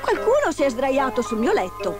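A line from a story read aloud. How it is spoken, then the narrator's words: Exclaimed. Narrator (Italian): esclamò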